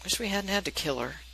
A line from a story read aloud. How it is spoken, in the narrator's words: Sam says quietly